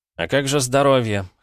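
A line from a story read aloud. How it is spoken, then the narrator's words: Skeptical snort. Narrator (Russian): хмыкнул Петя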